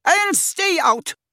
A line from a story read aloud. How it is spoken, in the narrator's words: shouted Madame Ross Myrtle